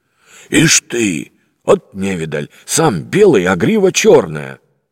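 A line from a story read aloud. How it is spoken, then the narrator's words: Exclaimed. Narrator (Russian): воскликнул кто-то за спиной Алексея Михайловича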